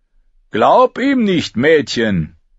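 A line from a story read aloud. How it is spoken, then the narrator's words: Called out. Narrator (German): rief Lark, der an Gemeinheit jeden Schurken übertraf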